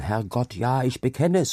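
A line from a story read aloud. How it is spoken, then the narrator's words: Sudden loud cry into storm. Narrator (German): rief er plötzlich laut in den Sturm hinaus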